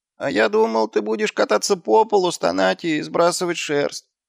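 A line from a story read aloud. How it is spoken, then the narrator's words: Whined. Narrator (Russian): проскулил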